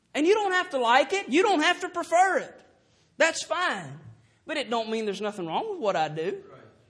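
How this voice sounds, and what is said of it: Southern US twang accent. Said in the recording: “Down south, we're going to twang a little bit.”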